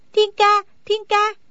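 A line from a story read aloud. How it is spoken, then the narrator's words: Loud calling. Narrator (Vietnamese): Đinh Đan lớn tiếng la gọi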